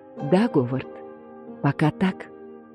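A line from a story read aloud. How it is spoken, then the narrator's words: Whispered. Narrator (Russian): И она прошептала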